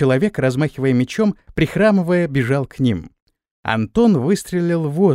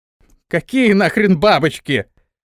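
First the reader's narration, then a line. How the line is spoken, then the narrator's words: Shout. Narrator (Russian): вновь закричал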